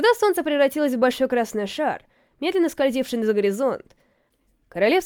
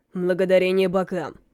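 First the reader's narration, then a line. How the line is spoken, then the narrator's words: Mutter. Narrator (Russian): пробурчал Амос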